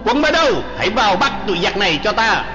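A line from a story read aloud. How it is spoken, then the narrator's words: Loud bellow. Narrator (Vietnamese): y quát lớn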